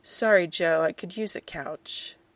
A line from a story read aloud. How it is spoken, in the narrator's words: a man, his words a little slurred, say